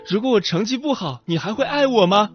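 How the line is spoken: Girl shouting. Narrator (Chinese): 一位女孩对妈妈喊出

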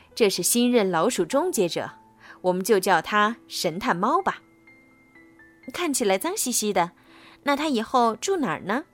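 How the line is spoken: Plain. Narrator (Chinese): 珍妮说

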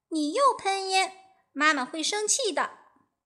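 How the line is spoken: Loud cry. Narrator (Chinese): 小火花大叫一声

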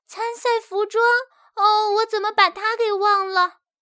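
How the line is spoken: Despairing loud wailing. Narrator (Chinese): 珍奇感到十分绝望 嚎啕大哭

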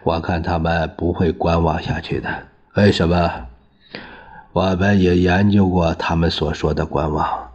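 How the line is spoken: Said laughing. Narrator (Chinese): 孙科笑着说

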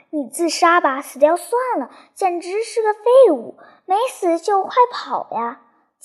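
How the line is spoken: Shouted through clenched teeth. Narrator (Chinese): 上尉咬着牙，大声喊道

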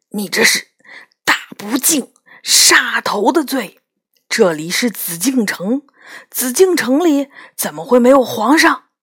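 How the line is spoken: Shocked lowered voice. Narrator (Chinese): 男人震惊的瞪大了眼睛，他压低声音说

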